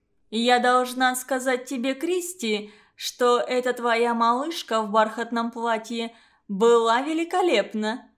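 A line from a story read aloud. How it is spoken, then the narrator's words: Loud laughter. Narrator (Russian): она громко рассмеялась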